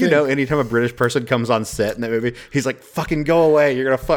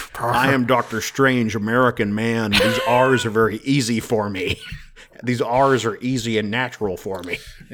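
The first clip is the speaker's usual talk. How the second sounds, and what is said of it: British actor's put-on American accent. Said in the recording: “Benedict Cumberbatch has that incredible American accent”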